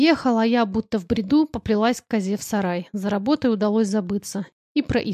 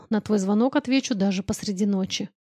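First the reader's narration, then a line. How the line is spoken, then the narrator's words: Close, intimate whisper. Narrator (Russian): прошептал он мне в губы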